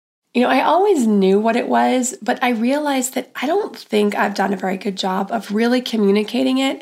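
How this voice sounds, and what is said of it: Voice affected by a cold. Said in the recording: “Pardon my voice, I do have a cold that I'm getting over.”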